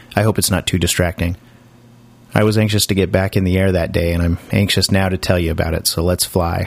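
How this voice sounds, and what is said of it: Voice slightly off from a cold. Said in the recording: “my voice sounds a little off. Unfortunately, I've come down with a cold ... my voice isn't really up to snuff yet.”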